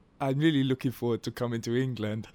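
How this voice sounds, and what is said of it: Generic put-on foreign accent. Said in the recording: “I won't do the accent ... That's just generic ... That sounded quite David Suchet”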